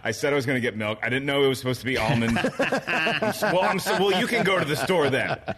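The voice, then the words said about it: Impression of a co-host. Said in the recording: “my impression of Christian right now”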